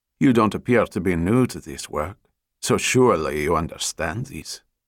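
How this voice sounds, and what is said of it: Thick French accent. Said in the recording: “Her French accent was thick, but her English was flawless.”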